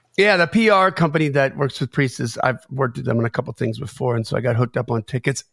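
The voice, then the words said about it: Hoarse, nearly lost voice. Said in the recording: “I barely have a voice left after the Queensryche Judas Priest concert”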